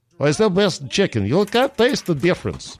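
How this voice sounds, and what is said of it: Sloppy put-on Russian accent. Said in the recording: “I've got to work on my Russian accent. It's very sloppy.”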